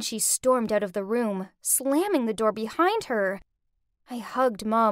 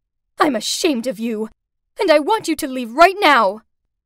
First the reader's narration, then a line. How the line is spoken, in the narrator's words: Furious, Mum shouted out